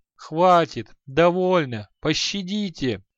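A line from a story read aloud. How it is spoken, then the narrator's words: Miserable whimper. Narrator (Russian): Тоскливо заскулил Халай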